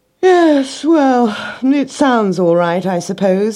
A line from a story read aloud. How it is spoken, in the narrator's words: he yawned